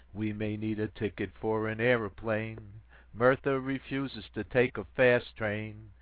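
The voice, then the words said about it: Sung in put-on American accent. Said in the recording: “in my American brogue”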